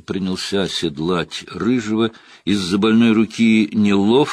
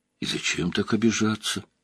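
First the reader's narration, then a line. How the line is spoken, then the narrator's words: Mumbling. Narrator (Russian): пробормотал Лойл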